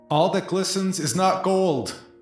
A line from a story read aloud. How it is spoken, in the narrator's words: yell quickly